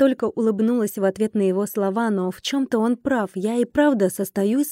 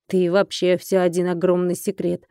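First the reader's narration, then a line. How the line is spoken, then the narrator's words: Man grumbling. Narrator (Russian): проворчал мужчина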